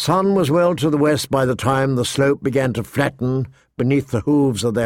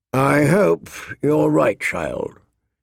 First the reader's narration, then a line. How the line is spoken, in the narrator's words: he sighed, in tones that said she was wrong